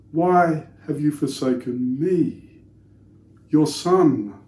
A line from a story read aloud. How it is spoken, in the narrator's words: cried Jesus